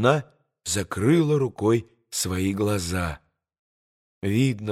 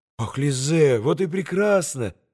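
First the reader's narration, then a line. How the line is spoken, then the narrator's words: Joyful exclamation. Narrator (Russian): радостно воскликнул Алеша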